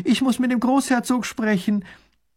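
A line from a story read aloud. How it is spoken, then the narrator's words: Calling out. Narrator (German): ruft sie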